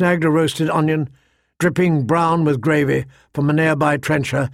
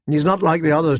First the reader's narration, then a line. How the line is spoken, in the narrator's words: said